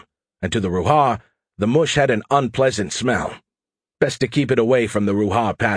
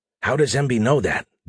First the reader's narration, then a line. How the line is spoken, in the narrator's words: Dave asked in a whisper